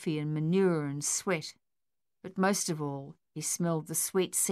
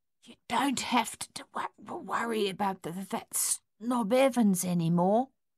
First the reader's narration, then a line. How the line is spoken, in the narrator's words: he whispered